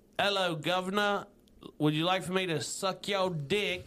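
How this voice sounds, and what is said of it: Bad put-on British accent. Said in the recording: “That's a terrible British accent.”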